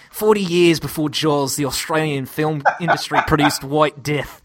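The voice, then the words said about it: Put-on Australian accent. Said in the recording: “read the IMDb review in an Australian accent”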